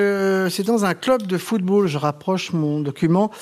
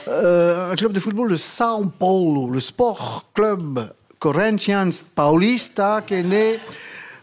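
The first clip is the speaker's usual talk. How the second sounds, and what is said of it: Put-on Brazilian accent. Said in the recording (French): “Vous avez vu mon accent brésilien.”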